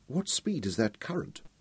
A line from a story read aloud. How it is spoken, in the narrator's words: she asked in a subdued voice